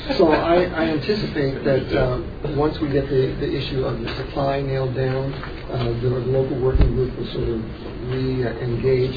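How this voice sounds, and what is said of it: Afrikaans accent. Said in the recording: “the new accent? ... It's Afrikaans.”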